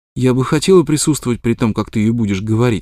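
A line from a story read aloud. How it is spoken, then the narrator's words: Plain. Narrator (Russian): сказала она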